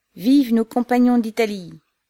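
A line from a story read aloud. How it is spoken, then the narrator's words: Crowd shouting. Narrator (French): s'écriait-on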